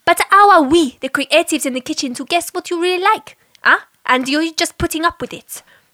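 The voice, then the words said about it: Exaggerated mixed European accent. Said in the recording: “the countries that my accent explored ... A tour of Europe ... You should keep that accent always. I could listen to that all day.”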